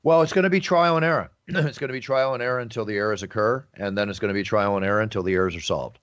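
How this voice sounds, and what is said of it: East Coast American accent. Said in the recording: “that's the first time I've heard your East Coast accent come out ... Trial and error. You say trial and error, like the 70s.”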